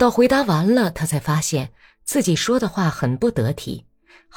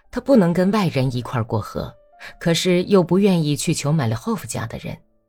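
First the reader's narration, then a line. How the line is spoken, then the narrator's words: Cold reply. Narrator (Chinese): 阿克西尼亚冷冷地回答说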